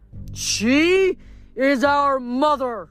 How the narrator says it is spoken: Hyperion bellowed

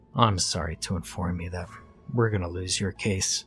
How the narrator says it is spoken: his lawyer said with a sigh

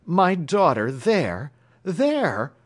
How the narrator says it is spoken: cried the American

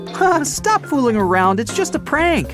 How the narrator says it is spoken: Rhonda began laughing and exclaimed

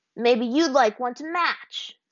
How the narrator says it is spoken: Sokka growled

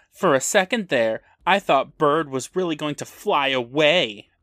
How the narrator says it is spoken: One of the mean girls loudly tells

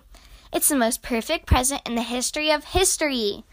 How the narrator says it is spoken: Perry barked in agreement

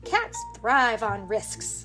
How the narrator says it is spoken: Benny scoffed

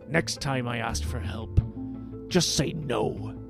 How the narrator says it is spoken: Gangplank growled

